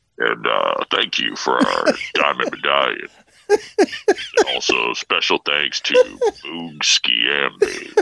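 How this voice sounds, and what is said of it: Impersonation of an intercom announcement. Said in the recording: “That's a very good impersonation.”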